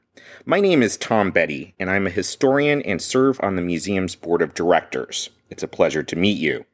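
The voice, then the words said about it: Cleveland accent. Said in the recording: “that's a Cleveland accent you hear”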